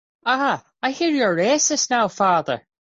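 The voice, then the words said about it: High-pitched put-on Irish accent. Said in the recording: “you go up four octaves when you do an Irish accent”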